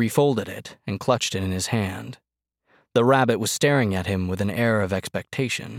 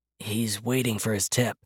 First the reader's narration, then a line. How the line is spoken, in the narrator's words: Ducker's whispered